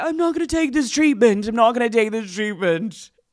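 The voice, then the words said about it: Put-on British accent. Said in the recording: “that accent ... British”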